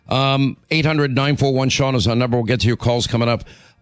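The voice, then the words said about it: Hoarse voice. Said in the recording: “my laryngitis.”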